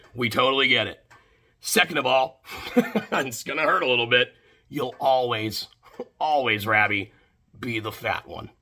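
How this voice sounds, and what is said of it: Put-on American wrestling promo voice. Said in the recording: “putting on a voice. He was doing a really good voice. ... That was the best American accent I've ever heard ... proper, like, 80s era WWF promo ... Roddy Piper-esque promo”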